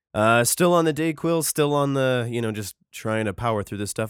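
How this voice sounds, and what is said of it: Congested, sick-sounding voice. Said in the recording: “You might be able to hear that my voice is not quite where it needs to be ... it's moved mostly out of my chest and into my nose”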